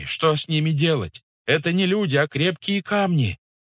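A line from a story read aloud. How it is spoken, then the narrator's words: Shriek. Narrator (Russian): завизжал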